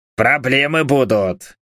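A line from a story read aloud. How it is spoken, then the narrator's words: Growl. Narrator (Russian): рыкнул Харальд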